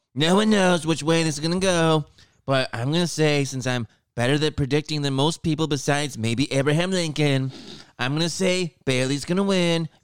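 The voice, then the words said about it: Imitates another person's voice. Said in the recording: “say that in your Trump voice.”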